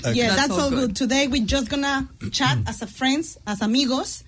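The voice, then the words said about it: Slight Mexican Spanish accent. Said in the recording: “I have a little Spanish um, Mexican uh, accent”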